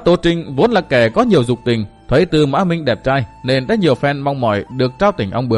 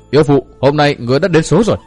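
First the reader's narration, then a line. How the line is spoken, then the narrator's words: Shout. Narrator (Vietnamese): Tư Mã Minh đã hét lên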